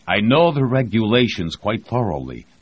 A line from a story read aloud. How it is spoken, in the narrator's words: Voznesensky snapped